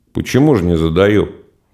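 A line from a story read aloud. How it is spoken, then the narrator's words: Muttered. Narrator (Russian): Пробормотал только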